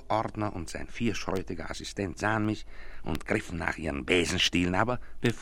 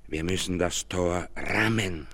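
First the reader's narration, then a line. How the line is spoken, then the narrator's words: Hoarse voice. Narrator (German): sagte mit heiserer Stimme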